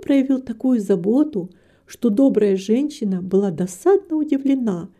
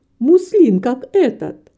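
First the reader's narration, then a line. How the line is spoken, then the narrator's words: Indignant exclamation. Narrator (Russian): воскликнула маленькая портниха с выражением негодования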